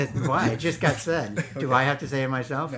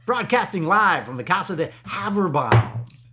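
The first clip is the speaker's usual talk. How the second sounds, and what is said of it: Put-on announcer-style impression voice. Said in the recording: “it's the voice I wanted to hear ... my impression of somebody doing an impression of somebody that nobody knows”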